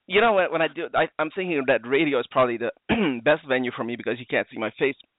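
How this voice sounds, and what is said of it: Hoarse, strained, failing voice. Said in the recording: “I just started coughing. I apologize. ... all choked up. ... My voice is going.”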